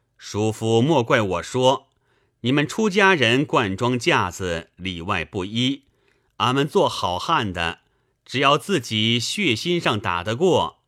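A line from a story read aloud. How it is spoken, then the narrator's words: Hearty laughter. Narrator (Chinese): 公子哈哈大笑道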